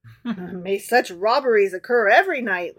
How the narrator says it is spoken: laughed the emperor

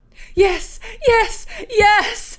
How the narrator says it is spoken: she shrieked

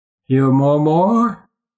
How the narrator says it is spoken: said Grotor, and laughed

